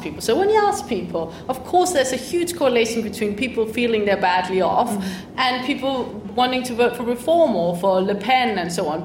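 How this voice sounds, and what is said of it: Danish-accented English. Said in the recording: “you can hear my accent. I come from a country ... Denmark”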